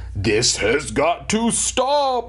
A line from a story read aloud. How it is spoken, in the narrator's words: he bellowed